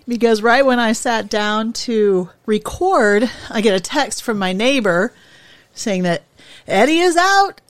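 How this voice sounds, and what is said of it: Slightly out of breath. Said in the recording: “You can hear I'm a little out of breath”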